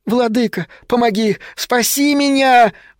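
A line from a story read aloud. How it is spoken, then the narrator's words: Sudden childlike scream. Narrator (Russian): вдруг совершенно детским голоском закричал вулкан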